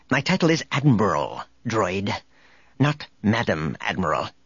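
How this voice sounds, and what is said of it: Harsh stern female character voice. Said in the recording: “Her voice was harsh.”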